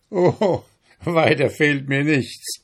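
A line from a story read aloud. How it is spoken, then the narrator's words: Mocking donkey owner. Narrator (German): spottete der Eselsbesitzer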